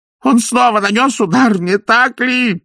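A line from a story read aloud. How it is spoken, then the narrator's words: Groaning. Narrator (Russian): простонал Пакет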